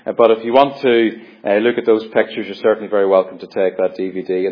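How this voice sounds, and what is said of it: Irish accent. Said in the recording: “Local Farming in Ireland ... back home ... probably some of the accents on that DVD are worse than my accent as far as understanding is concerned”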